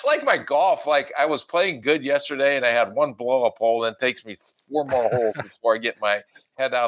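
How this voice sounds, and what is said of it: Usual voice. Nothing is said of it.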